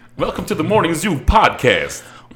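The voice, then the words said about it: Radio announcer voice. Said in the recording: “You got to do radio voice.”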